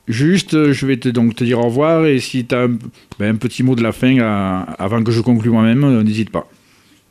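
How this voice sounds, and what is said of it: Regional French Aveyron accent. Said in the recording (French): “ce bel accent aveyronnais dans ta voix”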